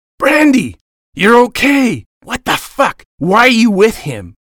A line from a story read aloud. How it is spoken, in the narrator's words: Jacob yelled